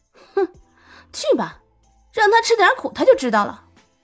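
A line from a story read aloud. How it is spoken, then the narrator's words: Cold sneering. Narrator (Chinese): 有人却冷笑道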